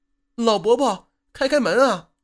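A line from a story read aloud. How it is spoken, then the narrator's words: Woman calling out. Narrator (Chinese): 传来了一个女人的叫唤声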